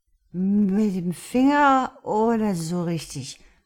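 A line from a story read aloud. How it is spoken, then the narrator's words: Drunken slurring. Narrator (German): lallte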